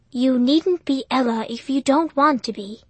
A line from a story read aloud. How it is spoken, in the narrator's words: he said softly